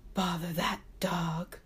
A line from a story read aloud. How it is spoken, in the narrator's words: he croaked